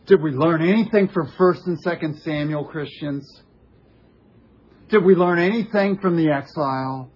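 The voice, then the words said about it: Loud yelling preacher delivery. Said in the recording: “I'm not yelling at you guys. I'm yelling at the Christian world.”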